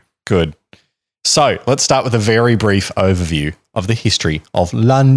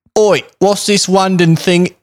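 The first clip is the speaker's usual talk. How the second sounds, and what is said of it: Bad put-on Cockney accent. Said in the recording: “The worst Cockney accent I've ever heard ... You've just outdone Dick Van Dyke as the worst Cockney accent in recorded history”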